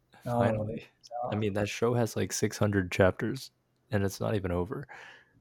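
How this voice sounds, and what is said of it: Voice altered by illness. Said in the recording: “my voice is a little different. I'm currently under the weather”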